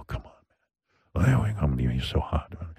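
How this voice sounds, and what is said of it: Put-on sexy voice. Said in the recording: “I have my sexy voice. ... This is creepy.”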